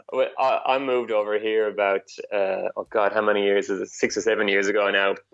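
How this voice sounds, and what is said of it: Irish accent. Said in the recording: “I'm Irish, obviously, as you can hear, or you might think I'm Australian. Some people think I've got that accent.”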